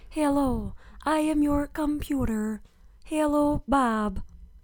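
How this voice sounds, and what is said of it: Talking computer voice impression. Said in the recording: “That was a really good impersonation.”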